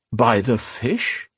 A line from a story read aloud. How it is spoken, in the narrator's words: Alesh groaned